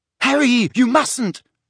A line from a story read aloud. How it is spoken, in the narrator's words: shrieked Hermione as Mundungus started to turn blue